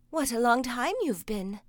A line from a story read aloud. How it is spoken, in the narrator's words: exclaimed his mother, who was watching anxiously for him